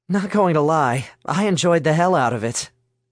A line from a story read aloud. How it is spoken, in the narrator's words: Alice chuckled